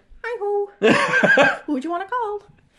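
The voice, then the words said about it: High-pitched cartoon mouse voice. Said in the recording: “my Morbert Mouse impression more than Kermit ... It was too high-pitched.”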